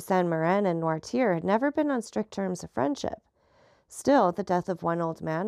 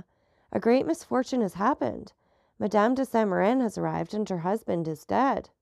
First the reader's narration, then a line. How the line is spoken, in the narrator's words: exclaimed Barrois